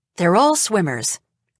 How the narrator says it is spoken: Donna says

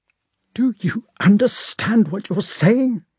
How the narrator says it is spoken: he said in a trembling voice

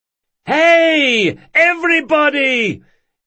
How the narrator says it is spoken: Carlo shouted

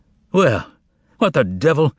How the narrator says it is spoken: exclaimed the master unexpectedly

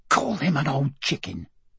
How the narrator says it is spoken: Emma hissed

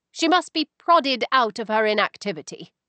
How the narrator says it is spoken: I added firmly

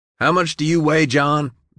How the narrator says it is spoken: Billy shouted

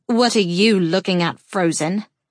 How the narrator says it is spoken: Silver snarls

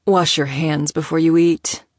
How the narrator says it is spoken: he said silkily, his tone hiding an undercurrent of sharpness

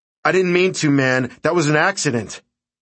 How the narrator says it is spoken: I shouted

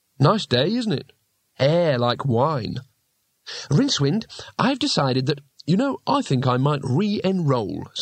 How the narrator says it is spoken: said Rincewind cheerfully

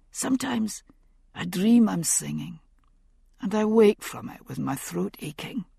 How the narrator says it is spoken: he whispered at last

